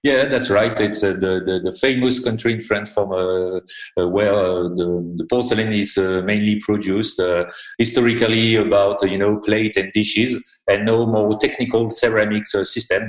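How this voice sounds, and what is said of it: French-accented English. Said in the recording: “we might have some French accent”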